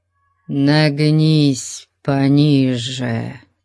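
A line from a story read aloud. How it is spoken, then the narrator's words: Hoarse wheeze. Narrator (Russian): Просипел Топал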